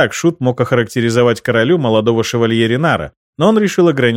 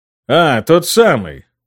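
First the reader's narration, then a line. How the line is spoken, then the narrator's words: Unconvincing grumble. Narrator (Russian): проворчал Карл не очень убедительно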